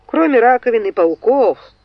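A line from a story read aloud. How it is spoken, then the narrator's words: Snorted. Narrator (Russian): фыркнул Линкольн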